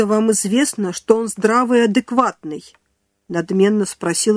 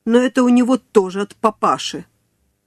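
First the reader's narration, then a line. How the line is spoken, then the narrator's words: Contemptuous snort. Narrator (Russian): презрительно фыркнула Любовь Григорьевна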